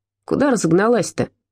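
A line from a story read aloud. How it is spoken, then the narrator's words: Wheezing voice. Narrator (Russian): просипел чей-то голос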